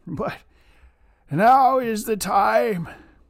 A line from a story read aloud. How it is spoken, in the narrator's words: Tomten broke into sobs